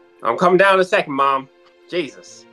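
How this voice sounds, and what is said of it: Put-on country accent. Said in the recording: “a trial run on my country accent”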